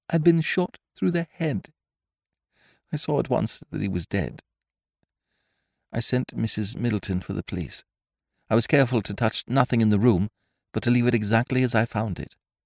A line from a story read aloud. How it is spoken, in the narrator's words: her voice faltered